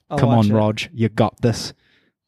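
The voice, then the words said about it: Bad Roger Federer impression. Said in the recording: “That's a bad Roger impression.”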